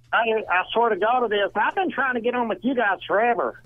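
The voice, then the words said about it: Donnie Baker character voice. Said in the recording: “We were graced to have the character Donnie Baker call in.”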